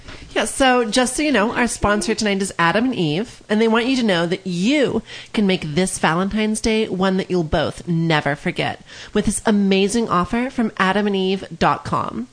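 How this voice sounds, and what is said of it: Polished radio announcer delivery. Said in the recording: “got a great radio voice ... you got this like good radio delivery here”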